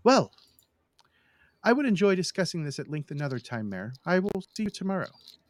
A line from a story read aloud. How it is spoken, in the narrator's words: Simon smiles brightly and says